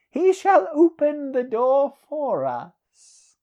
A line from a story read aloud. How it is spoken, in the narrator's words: laughed Peleus